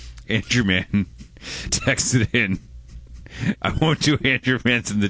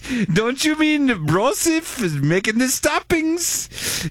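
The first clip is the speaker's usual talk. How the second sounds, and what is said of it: Put-on mock German accent. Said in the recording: “accent? ... the German”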